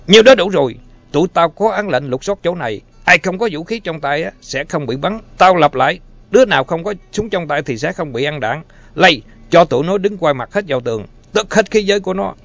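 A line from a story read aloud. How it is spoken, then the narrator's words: Yelling at full strength. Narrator (Vietnamese): Ness gào lên bằng tất cả sức lực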